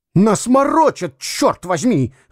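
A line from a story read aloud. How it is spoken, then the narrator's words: Shouting. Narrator (Russian): закричал Дюковский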